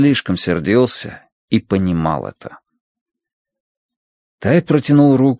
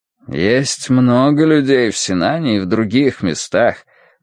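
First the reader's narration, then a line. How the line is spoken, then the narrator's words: Gloomy. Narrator (Russian): мрачно произнес Сыма Цянь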